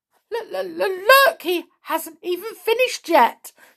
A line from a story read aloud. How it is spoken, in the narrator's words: cried Mr